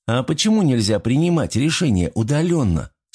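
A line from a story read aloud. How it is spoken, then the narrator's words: Plain. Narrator (Russian): спросила Эбби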